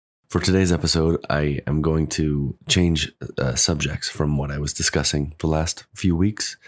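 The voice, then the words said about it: Weak, strained voice after cough. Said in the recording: “I am recovering from a really bad cough, and my voice is not all the way back yet ... I don't have a voice”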